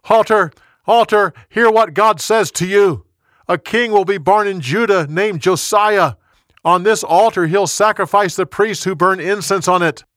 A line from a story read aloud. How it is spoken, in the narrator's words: The young prophet yelled